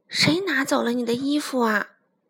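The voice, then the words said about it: Quiet, soft voice. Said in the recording (Chinese): “小声地”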